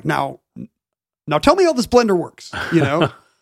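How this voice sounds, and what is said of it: Imitates another person's voice. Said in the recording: “that was a good Barack impression. ... It's not that good.”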